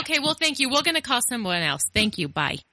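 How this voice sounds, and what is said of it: Put-on Australian accent. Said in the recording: “I love how you come out with, like, an Australian accent.”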